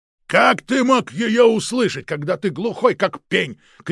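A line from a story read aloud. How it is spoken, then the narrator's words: Shouted. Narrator (Russian): крикнул Протасов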